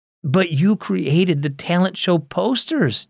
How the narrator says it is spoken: Justine exclaimed

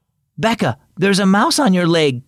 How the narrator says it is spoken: Cody called out

